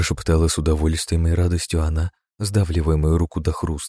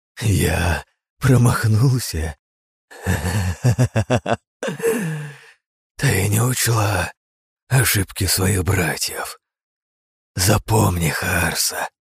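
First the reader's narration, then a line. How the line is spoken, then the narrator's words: Wheezing through laughter and pain. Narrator (Russian): просипел я сквозь смех и боль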